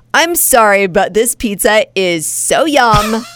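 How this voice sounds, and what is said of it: Valley girl accent. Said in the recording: “your dumb little valley girl accent”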